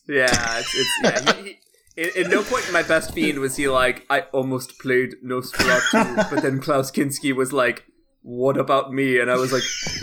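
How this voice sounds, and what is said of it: Werner Herzog impression. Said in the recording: “in a Herzog voice”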